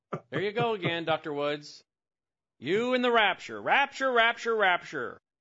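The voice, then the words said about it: Sarcastic mock-exasperated delivery. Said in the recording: “I'm being sarcastic”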